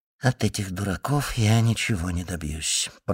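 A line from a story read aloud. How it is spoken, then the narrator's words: Whisper. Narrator (Russian): прошептал он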